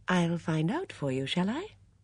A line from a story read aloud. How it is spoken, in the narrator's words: Miss Marple said gently